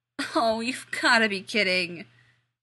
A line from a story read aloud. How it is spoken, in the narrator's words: Rodney groaned